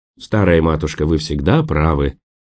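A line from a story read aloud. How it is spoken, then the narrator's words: Gentle teasing. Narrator (Russian): мягко поддразнил доктор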